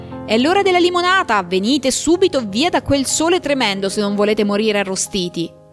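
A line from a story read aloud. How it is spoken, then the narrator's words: Shout. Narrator (Italian): Calpurnia gridò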